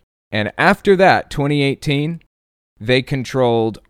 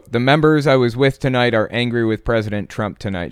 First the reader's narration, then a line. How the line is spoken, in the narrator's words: said